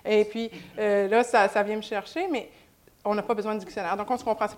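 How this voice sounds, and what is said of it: Québécois French accent. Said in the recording (French): “je garde mon accent québécois”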